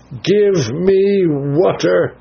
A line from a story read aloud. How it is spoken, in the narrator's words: cried